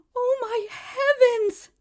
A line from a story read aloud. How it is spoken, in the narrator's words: the woman exclaimed